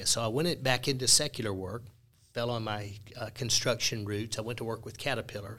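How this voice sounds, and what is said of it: Mississippi accent. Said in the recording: “my Mississippi accent”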